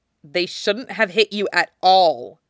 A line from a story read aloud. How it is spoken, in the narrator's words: says sharply, and it comes out low enough to be counted as a growl